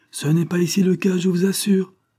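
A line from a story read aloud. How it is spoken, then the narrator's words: Feigned lively exclamation. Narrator (French): s'écria Vibert, avec une vivacité parfaitement jouée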